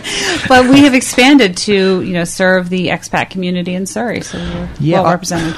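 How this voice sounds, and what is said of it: American accent. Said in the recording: “I have an American accent”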